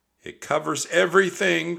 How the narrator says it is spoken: cried Annie

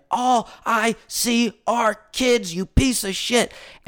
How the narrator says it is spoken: him screaming

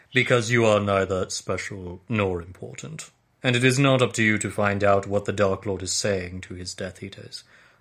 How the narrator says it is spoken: said Snape coldly

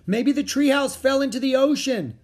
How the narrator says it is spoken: shouted Jack

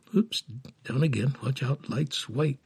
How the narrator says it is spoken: she mumbled to herself

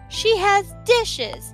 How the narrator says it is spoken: cried

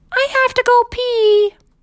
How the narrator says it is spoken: yelled

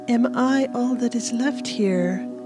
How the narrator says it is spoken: the girl sighed to herself, tiredly

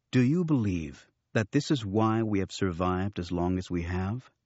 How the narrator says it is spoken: Luke interrupted calmly

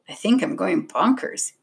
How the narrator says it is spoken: he mumbled under his breath

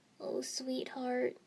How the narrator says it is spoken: Mom breathed, voice strangely quiet

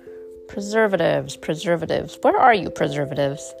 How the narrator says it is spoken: I muttered

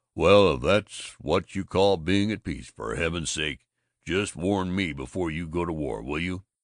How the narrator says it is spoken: Babbitt was up, growling

